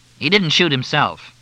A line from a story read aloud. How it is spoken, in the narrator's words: Fletch said